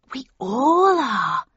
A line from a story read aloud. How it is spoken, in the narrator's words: she breathed excitedly